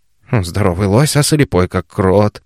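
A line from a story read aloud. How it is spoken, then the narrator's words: Grumbling old man. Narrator (Russian): проворчал старик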